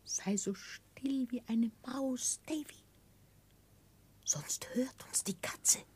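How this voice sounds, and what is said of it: Whispering voice. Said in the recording (German): “weckte mich ein Flüstern”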